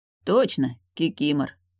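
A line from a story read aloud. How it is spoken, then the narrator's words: Grunt. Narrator (Russian): хмыкнул Явор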